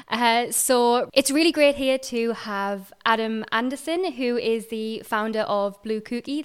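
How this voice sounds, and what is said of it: Strong Mackem accent. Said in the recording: “my very strong Macam accent coming out there”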